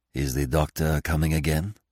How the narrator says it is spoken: asked Poirot in a whisper

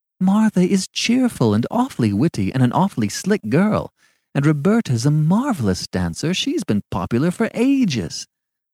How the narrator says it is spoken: objected Marjorie impatiently

